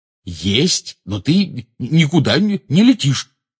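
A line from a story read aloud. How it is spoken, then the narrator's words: Angry declaration. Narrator (Russian): сердито заявил Рон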